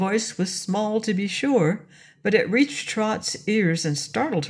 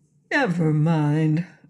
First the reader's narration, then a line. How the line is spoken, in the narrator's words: urged the Scarecrow in a comforting voice